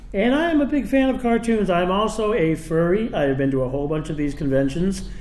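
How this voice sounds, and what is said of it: Radio DJ voice. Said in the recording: “I've spent nearly 40 years as a DJ at an FM station ... So I have a little bit of a radio voice.”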